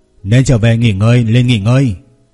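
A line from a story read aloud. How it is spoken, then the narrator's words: Loud, frowning. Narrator (Vietnamese): Lăng Tiêu nhíu mày lớn tiếng nói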